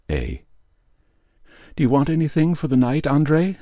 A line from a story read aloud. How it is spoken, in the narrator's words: shouted through the door